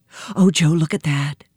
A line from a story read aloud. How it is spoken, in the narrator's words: said Nancy in a breathless voice